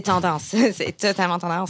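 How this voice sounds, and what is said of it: Poor attempt at Québécois French accent. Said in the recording (French): “essayé l'accent québécois ... J'adore l'accent québécois, mais je le fais très mal.”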